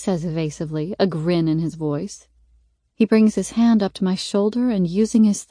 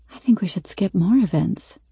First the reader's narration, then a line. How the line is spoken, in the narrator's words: I whisper